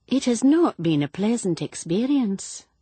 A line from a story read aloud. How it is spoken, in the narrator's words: said dryly